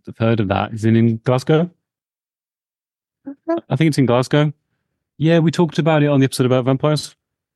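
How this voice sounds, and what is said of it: Birmingham English accent. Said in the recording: “we're from Birmingham in England, by the way, if you can't tell from our accents ... the horrific accents we have, we're from Birmingham, UK ... Birmingham is voted the least attractive accent in the entire of the UK”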